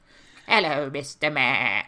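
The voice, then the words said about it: Imitated character voice. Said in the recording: “That's a very enjoyable impersonation to do.”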